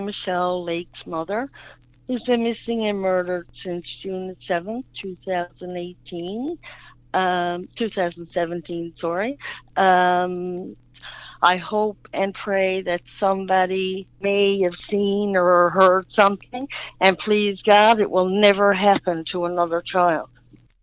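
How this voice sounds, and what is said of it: Newfoundland accent. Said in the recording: “The accent gives it away. She's from Newfoundland”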